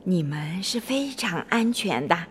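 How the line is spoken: Whispering. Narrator (Chinese): 巴蒂悄声地说

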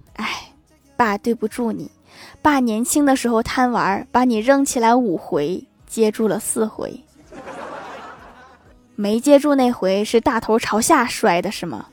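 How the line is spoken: Sighing. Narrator (Chinese): 郭大侠叹了一口气说

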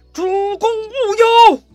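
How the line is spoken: Loud shout. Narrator (Chinese): 典韦 他也大喊一声

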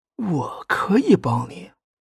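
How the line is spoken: Whispering in ear. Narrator (Chinese): 高明将脸贴到他的耳边，轻声说了一句

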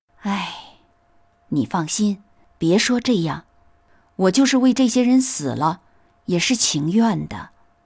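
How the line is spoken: Long sigh. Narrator (Chinese): 宝玉长叹一声，说

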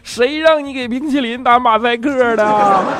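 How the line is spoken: Shouting while chasing. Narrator (Chinese): 一边追一边在后边喊

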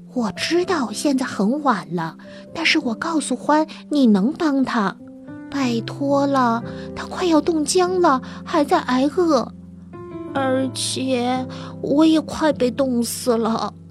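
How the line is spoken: Whisper. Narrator (Chinese): 小老鼠悄声说

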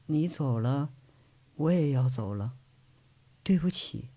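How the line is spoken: Soft trembling murmur. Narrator (Chinese): 轻颤着的嘴唇，喃喃的嘴里头却是轻轻说了一句

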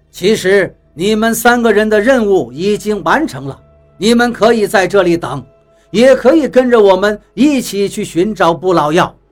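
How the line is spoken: Faint smile. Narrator (Chinese): 淡淡的笑了笑 对我们说道

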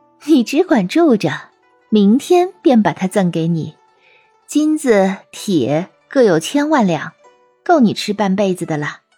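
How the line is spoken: Laughing. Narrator (Chinese): 狐女笑着说

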